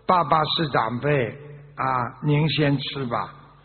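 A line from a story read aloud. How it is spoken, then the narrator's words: Slow. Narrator (Chinese): 这个时候儿子有点懂事了，就慢慢说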